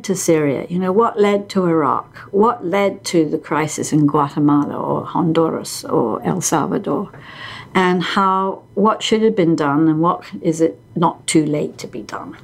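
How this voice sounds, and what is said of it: British accent. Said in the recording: “being British ... because of your accent”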